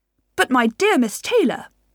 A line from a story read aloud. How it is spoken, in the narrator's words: exclaimed Mr